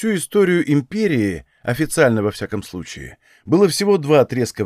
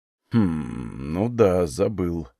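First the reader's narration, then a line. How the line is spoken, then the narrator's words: Mutter. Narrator (Russian): пробормотал Легион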